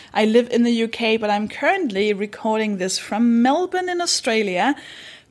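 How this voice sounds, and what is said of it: Danish accent. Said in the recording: “I'm from Denmark. That should explain the accent.”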